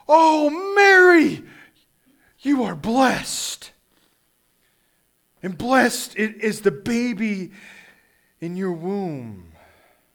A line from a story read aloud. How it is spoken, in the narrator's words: She exclaimed with a loud cry